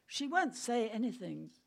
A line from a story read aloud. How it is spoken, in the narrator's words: he said